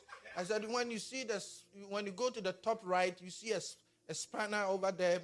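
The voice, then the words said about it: Ghanaian accent. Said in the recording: “my Ghanaian accent”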